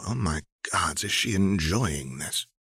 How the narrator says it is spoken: Aradia purrs

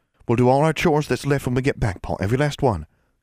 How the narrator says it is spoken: Constance said, speaking quickly into the sudden silence

